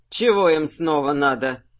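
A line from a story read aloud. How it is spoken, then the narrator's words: Grumbling. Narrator (Russian): проворчал Сухард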